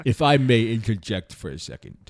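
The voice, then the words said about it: Poor Alfred Hitchcock impression. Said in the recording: “I'm trying to do an Alfred Hitchcock type of accent, and it's not working ... You sounded like Kirk on like a really bad emphysema attack or something.”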